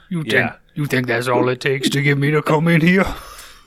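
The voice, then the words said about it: Cajun accent character voice. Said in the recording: “Is that Cajun ...?”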